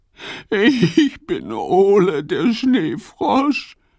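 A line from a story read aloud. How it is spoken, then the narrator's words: Sobbing. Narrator (German): schluchzt er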